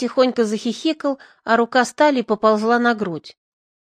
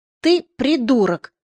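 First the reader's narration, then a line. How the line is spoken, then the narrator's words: Barked angrily. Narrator (Russian): рявкнула я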